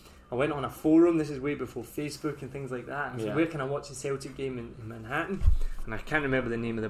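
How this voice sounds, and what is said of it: Usual voice. Nothing is said of it.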